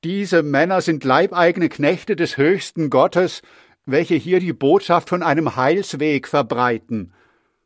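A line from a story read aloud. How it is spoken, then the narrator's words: Loud call. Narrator (German): rief laut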